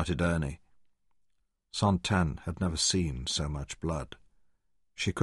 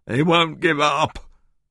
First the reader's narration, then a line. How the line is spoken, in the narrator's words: Ernie was sobbing weakly